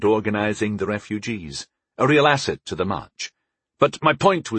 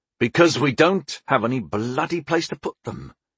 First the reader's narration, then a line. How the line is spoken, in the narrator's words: I answered back, sharply, more sharply than I intended